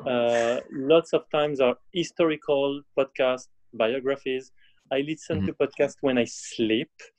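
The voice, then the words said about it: French-accented English. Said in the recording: “most of the time in French, as you can see with my broken accent.”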